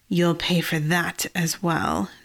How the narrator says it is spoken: Celeste hissed to the cage woman

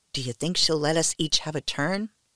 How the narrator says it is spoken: Morella turned to me and whispered

